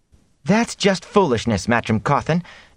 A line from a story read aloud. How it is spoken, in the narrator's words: Egwene cut in angrily